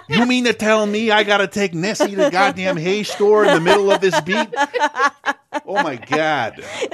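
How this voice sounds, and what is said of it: Put-on New York accent. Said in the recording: “I'm from New York. You can tell from my accent.”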